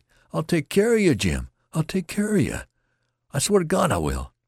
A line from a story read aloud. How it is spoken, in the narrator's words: The youth cried out at him hysterically